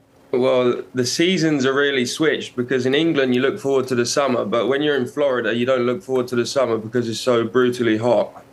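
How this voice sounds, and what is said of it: English accent. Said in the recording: “we hear the accent. We know, obviously, you're from England. We know you're from Brighton.”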